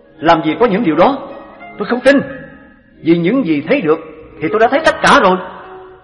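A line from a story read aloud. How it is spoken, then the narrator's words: Loud. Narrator (Vietnamese): Anh ta bèn lớn tiếng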